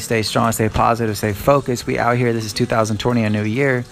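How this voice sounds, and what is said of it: Talking fast. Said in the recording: “not talking too fast. I probably was talking a bit fast there.”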